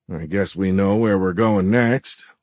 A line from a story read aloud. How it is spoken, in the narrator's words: Lincoln grumbled